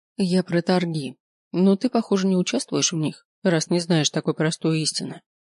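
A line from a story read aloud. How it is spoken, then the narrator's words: Sad. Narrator (Russian): грустно сказала она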